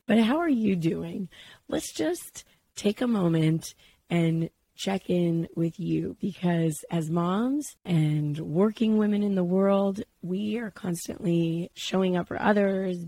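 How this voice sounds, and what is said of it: Husky, congested sick voice. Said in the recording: “you could probably sense that I am a little bit under the weather ... anything that happens in my sinuses or any sort of cold just ends up in my voice ... this very sexy voice thing going on”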